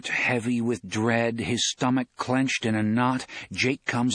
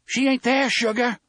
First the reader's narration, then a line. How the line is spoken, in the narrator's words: Susanna shouts at him